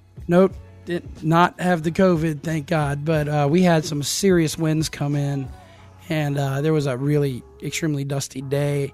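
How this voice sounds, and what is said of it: Hoarse, strained voice. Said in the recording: “You can still tell my voice is a bit shot”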